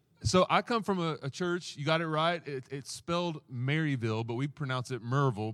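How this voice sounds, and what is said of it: Southern US accent. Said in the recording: “you already gave away where my accent's from. It'll it'll get thicker the longer I'm up here... we're from the southeast”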